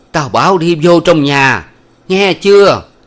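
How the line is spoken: Old woman shouting. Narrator (Vietnamese): bà cụ lại hét lên

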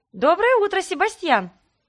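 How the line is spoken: Cheerful, playful call. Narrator (Russian): весело окликнула я его, предвкушая развлечение

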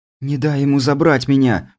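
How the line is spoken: Tearful pleading. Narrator (Russian): взмолилась смотревшая на меня полными слез глазами Лазарева

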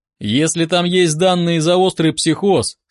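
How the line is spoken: Stern. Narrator (Russian): строго ответил я

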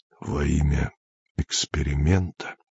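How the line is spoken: Hoarse question. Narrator (Russian): хрипло спросил Андрей

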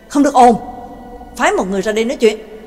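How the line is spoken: Irritated snap. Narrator (Vietnamese): Bảo Tàng gắt lên

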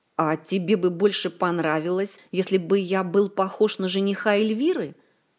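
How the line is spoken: Snapping retort. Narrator (Russian): огрызнулся маэстро

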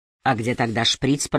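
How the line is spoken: Muttered to himself. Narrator (Russian): пробормотал коп, обращаясь к самому себе

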